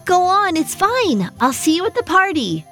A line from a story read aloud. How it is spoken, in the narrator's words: she called out, not even bothering to look back at Maggie